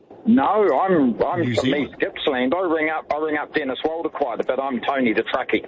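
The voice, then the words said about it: New Zealand accent. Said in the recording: “A Kiwi by birth? ... what your accent is, and he thought it was South Australian for a while there ... South Australians often sounds as though they have a Kiwi accent.”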